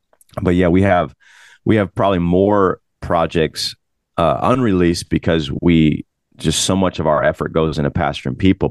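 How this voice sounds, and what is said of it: Hoarse, strained, tired voice. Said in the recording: “sorry, my throat is like messed up... I was yelling all night at a bounce house last night... my voice is so tired.”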